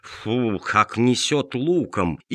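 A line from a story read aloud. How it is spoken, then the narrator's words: Displeased grumbling. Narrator (Russian): богачам недовольно ворчали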